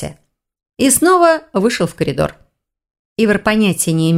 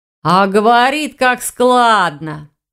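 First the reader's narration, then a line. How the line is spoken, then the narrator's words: Student drawling. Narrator (Russian): протянул второй старшекурсник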